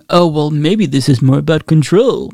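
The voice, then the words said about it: Weak imitation of another person's voice. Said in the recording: “I don't have a very good Dave Rubin impression”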